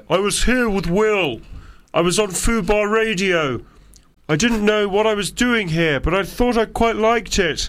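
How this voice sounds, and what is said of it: Impression of Louis Theroux. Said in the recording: “does Louis Theroux. ... he does him in a kind of like”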